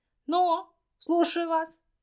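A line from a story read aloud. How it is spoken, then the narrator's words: Loud bark over noise. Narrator (Russian): гаркнула, стараясь перекричать гомон голосов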